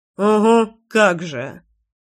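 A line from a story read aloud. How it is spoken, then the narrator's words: Scoffing snort. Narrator (Russian): фыркнул Слава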